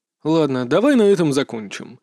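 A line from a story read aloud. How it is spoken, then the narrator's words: Sigh. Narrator (Russian): наконец вздохнул мастер Рао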